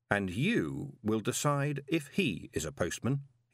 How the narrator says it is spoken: he said softly

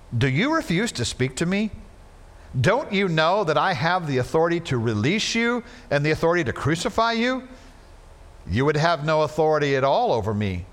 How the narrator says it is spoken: Jesus answered him

